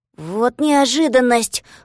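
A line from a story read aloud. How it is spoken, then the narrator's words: Exclaiming. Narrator (Russian): воскликнул Козлик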